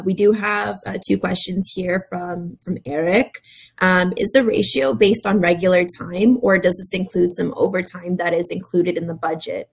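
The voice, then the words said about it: Raspy voice. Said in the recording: “apologies for the raspy voice”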